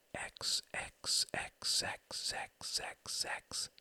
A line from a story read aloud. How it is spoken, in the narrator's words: she whispered